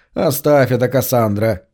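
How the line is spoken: Snort. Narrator (Russian): Макс фыркнул

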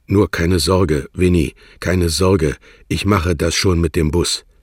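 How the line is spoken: Rough, half-shy stammer. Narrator (German): stammelte rau, halb entschlossen wie ein Mann, halb schüchtern wie ein Kind

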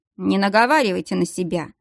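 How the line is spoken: Snort. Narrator (Russian): фыркнул Дияр

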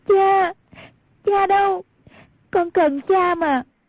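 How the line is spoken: Loud sobbing cry. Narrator (Vietnamese): Hoàng Dung khóc lớn kêu lên

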